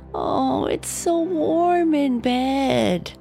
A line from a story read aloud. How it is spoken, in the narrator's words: Natalie would moan